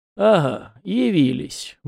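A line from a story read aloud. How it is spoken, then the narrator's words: Meaningful snort, elder. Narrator (Russian): многозначительно хмыкнул старейшина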